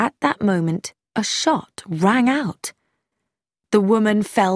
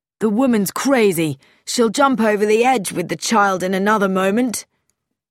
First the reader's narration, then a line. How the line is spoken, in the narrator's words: Tommy cried